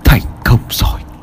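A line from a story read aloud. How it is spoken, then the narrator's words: Soft. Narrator (Vietnamese): Thầy Lương liền khẽ nói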